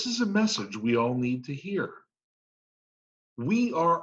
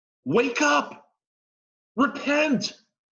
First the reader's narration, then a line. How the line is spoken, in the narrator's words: He's shouting